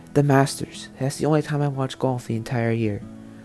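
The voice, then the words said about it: Golf commentator voice. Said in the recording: “talking in a golf voice this whole time”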